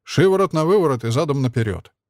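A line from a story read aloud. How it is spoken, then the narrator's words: Grunt. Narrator (Russian): хмыкнул Тарас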